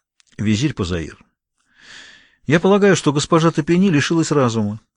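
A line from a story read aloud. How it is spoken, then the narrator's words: Sighing. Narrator (Russian): вздохнул Белтран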